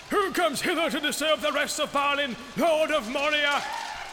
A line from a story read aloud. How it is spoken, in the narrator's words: cried in a loud voice